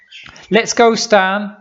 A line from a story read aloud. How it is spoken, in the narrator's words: she said, a bit more loudly than normal